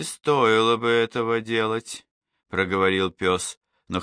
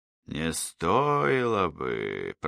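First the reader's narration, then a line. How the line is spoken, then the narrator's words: Hoarse rasp. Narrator (Russian): прохрипел Войпель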